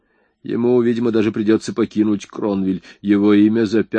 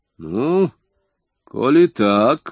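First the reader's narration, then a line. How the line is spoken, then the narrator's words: Snorting hmph. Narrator (Russian): хмыкнул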